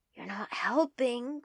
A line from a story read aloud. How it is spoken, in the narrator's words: Quinlan hisses